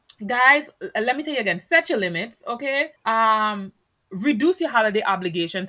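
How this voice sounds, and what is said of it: Thick accent. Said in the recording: “I know my accent is thick this episode”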